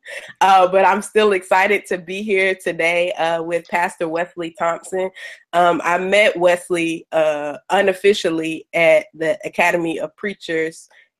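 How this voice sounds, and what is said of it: Voice strained from a cold. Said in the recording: “excuse my voice, I'm just getting over a severe cold”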